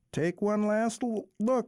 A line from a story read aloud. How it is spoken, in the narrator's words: called out flirtatiously